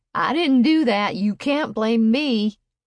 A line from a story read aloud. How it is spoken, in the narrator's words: Silas yelled